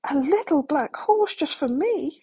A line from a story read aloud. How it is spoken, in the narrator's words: cried